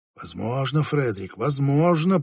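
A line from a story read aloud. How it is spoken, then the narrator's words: Muttered to himself. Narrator (Russian): пробормотал он про себя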